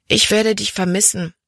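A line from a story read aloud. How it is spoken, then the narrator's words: Gentle. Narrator (German): sagte sie sanft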